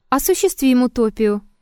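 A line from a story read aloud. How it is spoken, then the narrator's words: Calm objection. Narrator (Russian): также спокойно возразил Триродов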